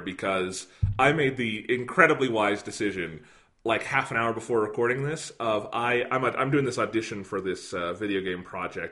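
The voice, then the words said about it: Slightly hoarse voice. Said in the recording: “My voice is a little hoarse today, as you can probably hear”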